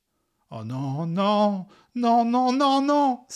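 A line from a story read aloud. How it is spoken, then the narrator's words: Exclaimed. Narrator (French): s'écria-t-il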